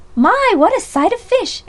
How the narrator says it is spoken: exclaimed Mrs

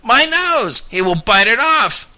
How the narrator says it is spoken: cried the hotel man

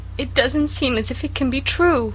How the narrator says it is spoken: sobbed Cecily

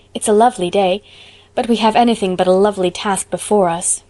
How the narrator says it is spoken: sighed Diana

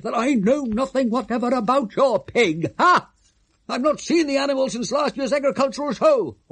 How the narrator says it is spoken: cried the suffering baronet

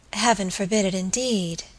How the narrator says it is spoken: she murmured

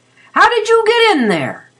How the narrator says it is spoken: he shouted

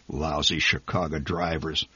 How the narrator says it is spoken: The old man muttered

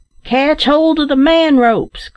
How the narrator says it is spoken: cried the last-named worthy

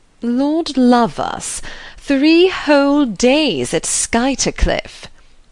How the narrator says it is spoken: Beaufort was saying in his loud, sneering voice

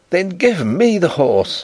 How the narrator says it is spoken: I cried, staggering to my feet

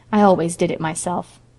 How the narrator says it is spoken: she added calmly

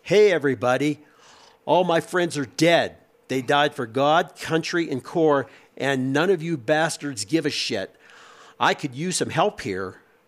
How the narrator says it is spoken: He yelled out to the world as loud as he could

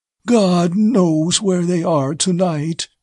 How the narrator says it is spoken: then repeated, quavering

